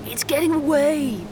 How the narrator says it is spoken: Blobbo screamed

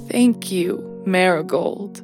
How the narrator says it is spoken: she said, her voice filled with emotion

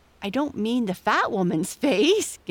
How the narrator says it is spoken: giggled Amy

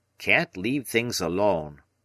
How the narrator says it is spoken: he grumbled

